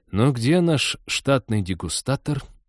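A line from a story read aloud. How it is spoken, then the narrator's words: Snide whisper. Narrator (Russian): ехидно прошептал Теодор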